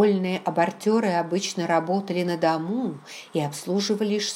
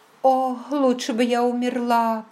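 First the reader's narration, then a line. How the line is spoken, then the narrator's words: Moaning. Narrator (Russian): простонала она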